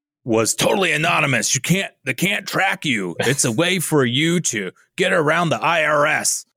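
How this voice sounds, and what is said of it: Imitates another person's voice. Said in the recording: “my best Alex Jones impression ... That's pretty good.”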